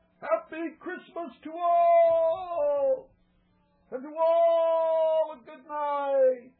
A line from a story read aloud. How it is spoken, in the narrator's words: I heard him exclaim, ere he drove out of sight